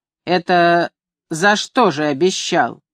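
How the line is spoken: Drunk, rude question. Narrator (Russian): Копендюхин, выпивший, грубо спрашивает

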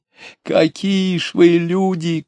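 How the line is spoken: Shouting. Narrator (Russian): кричал извозчик

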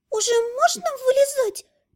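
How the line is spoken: Muffled squeak. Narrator (Russian): пискнула из-под стойки Эля

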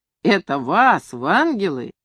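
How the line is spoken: Laughing, teasing. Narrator (Russian): Хохотал и снова дразнил

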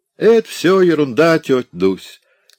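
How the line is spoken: Shouting. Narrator (Russian): крикнули ей

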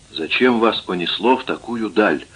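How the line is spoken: Whispered question. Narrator (Russian): шепотом спросил я Ортериса

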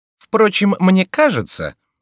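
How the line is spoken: Loud objection. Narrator (Russian): возразил Фриар довольно громко, так, чтобы его услышал высокий человек

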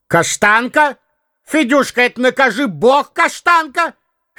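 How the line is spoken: Child and man calling loudly. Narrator (Russian): два голоса, один детский, другой мужской, громко позвали

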